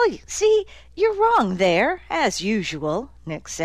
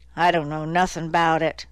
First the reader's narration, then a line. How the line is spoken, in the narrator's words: Dozer grumbled